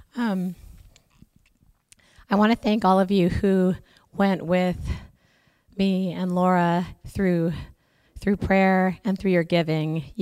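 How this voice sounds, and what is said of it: Hoarse, strained, fading voice. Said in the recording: “Excuse me, my voice. I'm losing my voice as of yesterday.”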